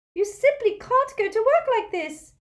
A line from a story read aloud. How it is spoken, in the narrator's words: cried Hermione